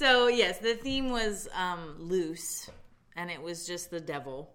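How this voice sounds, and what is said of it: Usual voice. Nothing is said of it.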